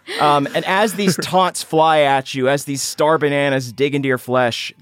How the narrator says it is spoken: the kings shout to the guards

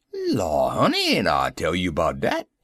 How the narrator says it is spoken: replied the old darky, chuckling slyly

